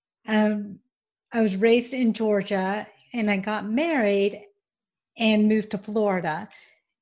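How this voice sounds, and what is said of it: Southern American twang. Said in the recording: “born in Auburn, Alabama, as you can probably tell by my twang”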